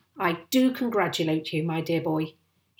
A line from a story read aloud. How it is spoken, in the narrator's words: he cried